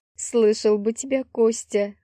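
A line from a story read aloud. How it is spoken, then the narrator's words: Laughing. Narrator (Russian): хохотнула я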